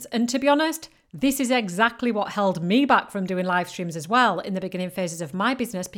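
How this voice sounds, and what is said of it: Northern British accent. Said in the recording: “I've got a very northern British accent. I do not speak the Queen's English.”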